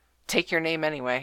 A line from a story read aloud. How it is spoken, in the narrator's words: said Knocker flatly